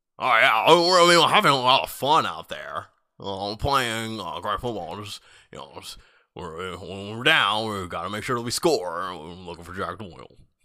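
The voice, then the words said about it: Imitates another person's voice. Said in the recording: “That's my impression. Andrew Luck.”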